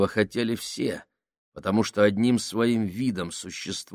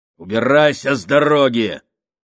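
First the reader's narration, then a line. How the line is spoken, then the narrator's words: Barked shout. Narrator (Russian): рявкнул Сакс Фабрини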